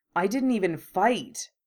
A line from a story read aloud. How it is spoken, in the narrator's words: he said bitterly